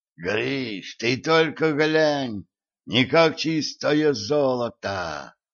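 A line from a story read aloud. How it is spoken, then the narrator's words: Strained, forced out. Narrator (Russian): С трудом выдавил из себя Митяй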